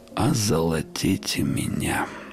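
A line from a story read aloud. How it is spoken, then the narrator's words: Drowsy grumble. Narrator (Russian): задремывая, пробурчал я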